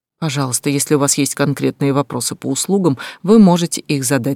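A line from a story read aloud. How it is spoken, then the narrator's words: Forced calm. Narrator (Russian): сказала я, стараясь звучать спокойно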